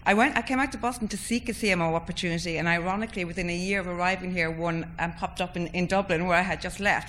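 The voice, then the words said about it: Irish accent. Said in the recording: “You probably recognize from my accent, Aoife. I think we graduated within a year of each other from Trinity in Dublin.”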